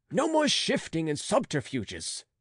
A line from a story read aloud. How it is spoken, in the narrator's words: cried Gilbert, feeling that he was master of the situation